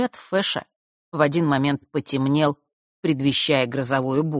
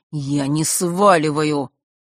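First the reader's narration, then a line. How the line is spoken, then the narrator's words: Through clenched teeth. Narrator (Russian): процедил он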